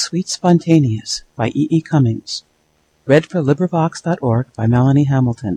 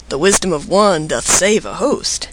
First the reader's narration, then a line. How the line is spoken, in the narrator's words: The animals said